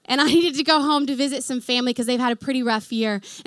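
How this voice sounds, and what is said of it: Oklahoma American accent. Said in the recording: “hence the accent, I'm from Oklahoma, y'all”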